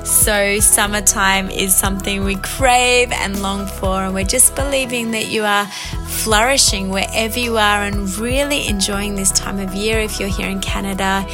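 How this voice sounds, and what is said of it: Australian accent. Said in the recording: “You can notice my Aussie accent”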